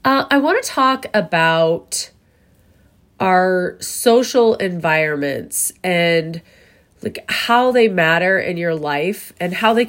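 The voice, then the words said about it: Sick-sounding, rough voice. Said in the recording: “I am a little bit under the weather ... apologize for my voice ... I sound a whole lot worse than I feel ... I just sound horrid”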